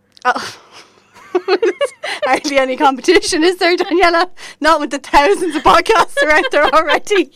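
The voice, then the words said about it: Posh Dublin Irish accent. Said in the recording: “The one from Roscommon with the Dublin accent ... she's the posh one”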